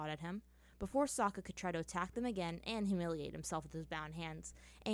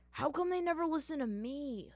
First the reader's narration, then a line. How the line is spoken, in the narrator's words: Zuko groaned